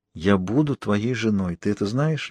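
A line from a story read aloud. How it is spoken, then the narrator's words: Soft question. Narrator (Russian): мягко спросила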